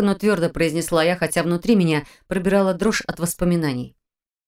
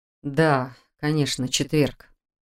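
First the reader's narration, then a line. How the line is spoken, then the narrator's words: Muttered. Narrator (Russian): пробормотал он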